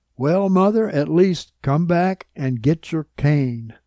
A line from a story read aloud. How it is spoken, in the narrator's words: her daughter called out